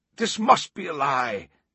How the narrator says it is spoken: one of the cardinals yelled

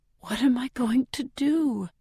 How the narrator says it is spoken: I whisper to the walls, because I really don't know

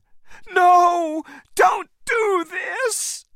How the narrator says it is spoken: Anne cried

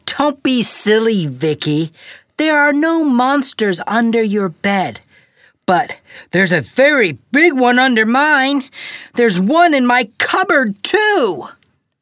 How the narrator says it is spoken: He laughed and said

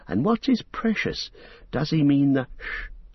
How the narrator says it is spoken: breathed Frodo

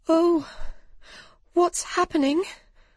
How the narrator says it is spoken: cried Alice

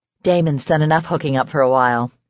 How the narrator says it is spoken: Serena said dryly

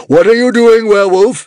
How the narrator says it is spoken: screamed the Druid Commander

